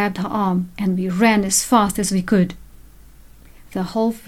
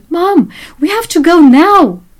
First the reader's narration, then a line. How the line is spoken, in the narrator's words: I shouted